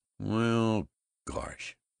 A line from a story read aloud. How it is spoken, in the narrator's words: sighed Ted